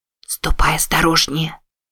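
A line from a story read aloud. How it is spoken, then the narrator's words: Whisper. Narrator (Russian): прошептала она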